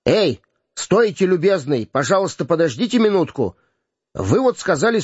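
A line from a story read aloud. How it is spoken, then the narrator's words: Hesitant shout. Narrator (Russian): Полицейский в нерешимости закричал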